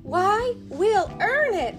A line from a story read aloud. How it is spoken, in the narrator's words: they exclaimed